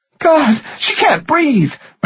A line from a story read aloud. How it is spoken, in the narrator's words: Marilyn gasped